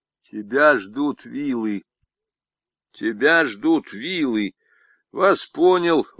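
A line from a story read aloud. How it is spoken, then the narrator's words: Plain. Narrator (Russian): ответил Мещук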